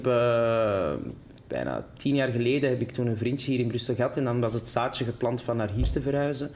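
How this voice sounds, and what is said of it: Antwerp Flemish accent. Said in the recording (Dutch): “mijn Antwerps accent, dat, dat, dat zal altijd wel...”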